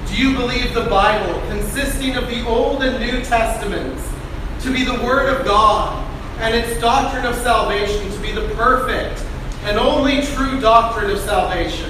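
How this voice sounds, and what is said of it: Loud, yelling voice. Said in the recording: “Sorry, I'm yelling because the mic's over there.”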